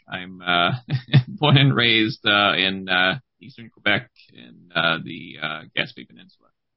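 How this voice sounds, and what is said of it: Quebec-accented English. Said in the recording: “as you can tell from both my my name, my accent, pretty much everything, I'm totally not Irish.”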